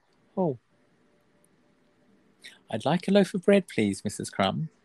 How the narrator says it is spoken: he said quietly

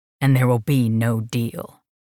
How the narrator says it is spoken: he said with a husky growl

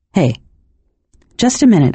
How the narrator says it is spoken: murmured

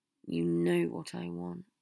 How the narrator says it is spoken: Harry said miserably

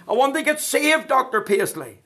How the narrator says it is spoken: somebody shouted up in the meeting

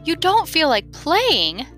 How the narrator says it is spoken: the mouse exclaimed

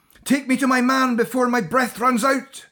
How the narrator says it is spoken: screamed Catriona, and though to her ears all she could hear was a bubbling, blubbling, gargling cacophony

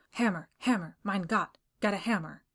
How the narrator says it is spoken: The skipper mumbled

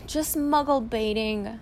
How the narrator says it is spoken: sighed Mr

